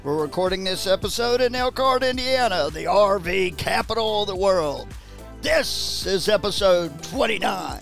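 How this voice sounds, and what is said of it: Booming wrestling announcer voice. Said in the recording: “channels his inner wrestling announcer voice”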